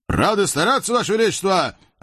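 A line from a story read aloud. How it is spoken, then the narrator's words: Two men barking joyfully. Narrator (Russian): радостно гаркнули генерал с адъютантом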